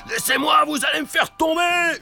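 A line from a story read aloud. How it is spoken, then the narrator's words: Screamed. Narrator (French): hurle Joe l'Exterminateur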